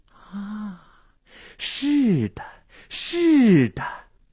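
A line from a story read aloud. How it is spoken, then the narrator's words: Entranced murmuring. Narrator (Chinese): 心醉神迷的喃喃自语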